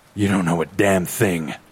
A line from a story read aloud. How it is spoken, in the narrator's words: he sighs